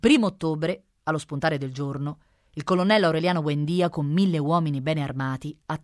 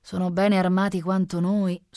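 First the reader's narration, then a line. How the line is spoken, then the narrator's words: Sighing general. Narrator (Italian): sospirò il generale Moncada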